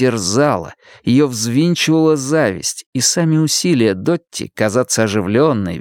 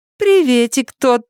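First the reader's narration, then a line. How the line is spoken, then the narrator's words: Cheerful mocking reply. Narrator (Russian): ответила Дотти весело и насмешливо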